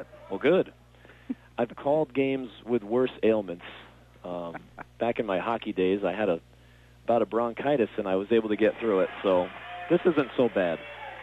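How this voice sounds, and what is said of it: Slightly fuzzy, rough voice. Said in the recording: “My voice is still a little fuzzy here”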